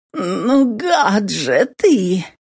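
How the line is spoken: Groaning. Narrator (Russian): Простонала Кэти

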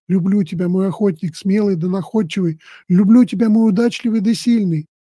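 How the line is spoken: Tender whisper in ear. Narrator (Russian): ласково прикоснувшись губами к уху, прошептала жена

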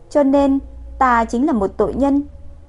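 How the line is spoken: Trembling voice. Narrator (Vietnamese): Quận chúa thanh âm ẩn chứa run rẩy

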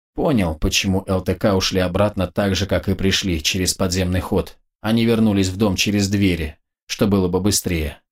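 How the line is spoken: Plain. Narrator (Russian): ответил Вичко

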